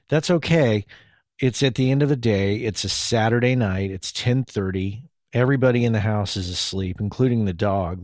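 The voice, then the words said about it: Tired, worn-out voice. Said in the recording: “my voice is a little worn out. I can already hear it.”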